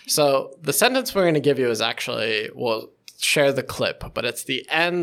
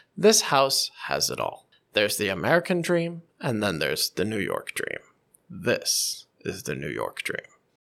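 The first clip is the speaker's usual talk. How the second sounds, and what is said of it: Transatlantic accent, rising and falling intonation. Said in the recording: “with this transatlantic accent, you just feel like, oh, this is luxury living ... it dips down at the end of every sentence ... It goes up and down, up”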